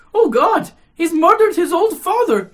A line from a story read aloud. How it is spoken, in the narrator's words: she cried out